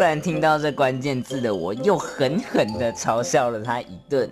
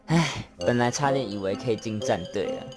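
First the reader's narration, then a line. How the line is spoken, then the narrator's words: Lamenting. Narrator (Chinese): 他还很哀叹的说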